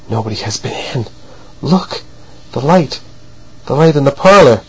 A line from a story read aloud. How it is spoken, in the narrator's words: Verloc gasped out